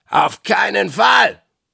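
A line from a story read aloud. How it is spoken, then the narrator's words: Thundering. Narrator (German): donnerte Blackbutt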